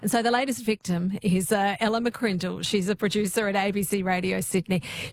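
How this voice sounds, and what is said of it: Australian accent. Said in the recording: “How nice to hear a familiar voice, the Aussie accent.”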